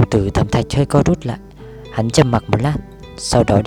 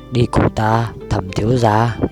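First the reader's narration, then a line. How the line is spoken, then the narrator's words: Hoarse old voice. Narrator (Vietnamese): lão cất giọng khàn khàn nói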